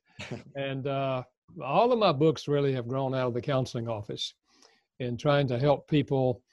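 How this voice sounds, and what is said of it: North Carolina Southern accent. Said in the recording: “I live in North Carolina, thus the accent.”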